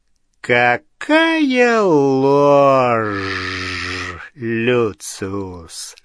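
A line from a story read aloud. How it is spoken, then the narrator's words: Quiet lingering hiss. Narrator (Russian): Шипение, послышавшееся в негромком голосе Волан-де-Морта, казалось, продолжалось и после того, как его жесткий рот замер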